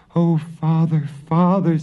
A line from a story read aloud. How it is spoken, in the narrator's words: sobbed Marusha